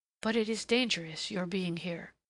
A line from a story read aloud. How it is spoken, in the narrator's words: she murmured